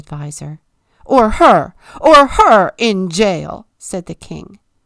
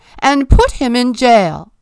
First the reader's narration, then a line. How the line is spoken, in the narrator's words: screamed the king